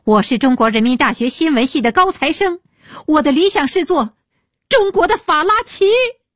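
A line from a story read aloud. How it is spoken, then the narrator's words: Crying out. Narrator (Chinese): 他失声叫道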